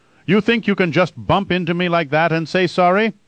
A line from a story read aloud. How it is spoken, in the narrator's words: he shouted